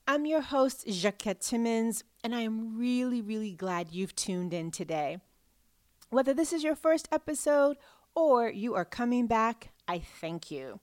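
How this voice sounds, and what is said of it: Slightly hoarse voice. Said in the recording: “my voice sounds a little hoarse today, well, I've had 5 presentations over the course of 4 days”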